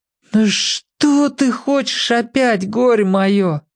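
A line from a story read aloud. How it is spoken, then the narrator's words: Groaning. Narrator (Russian): застонал Сеня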